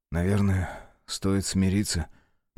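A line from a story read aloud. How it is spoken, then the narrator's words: Trembling voice. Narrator (Russian): дрожащим голосом сказал Александр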